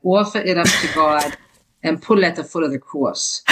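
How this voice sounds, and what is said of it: Imitated New Jersey accent. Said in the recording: “I'll say it in my mother's Jersey accent.”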